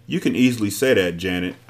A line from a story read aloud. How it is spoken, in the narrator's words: said